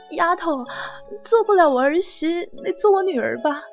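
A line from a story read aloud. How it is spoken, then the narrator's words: Choked, tearful voice. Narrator (Chinese): 你妈，她在一旁红了眼眶，哽咽的说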